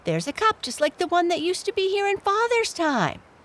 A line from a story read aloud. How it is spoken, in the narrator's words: exclaimed Felix